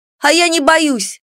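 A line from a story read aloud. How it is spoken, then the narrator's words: Loud. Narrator (Russian): громко проговорила я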